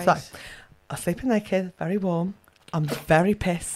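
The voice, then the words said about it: Put-on accent. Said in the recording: “Can you stop with the accent? ... I've got to do the accent”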